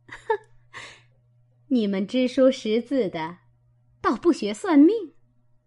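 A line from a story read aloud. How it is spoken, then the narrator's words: With a laugh. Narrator (Chinese): 凤姐笑了一声，向探春道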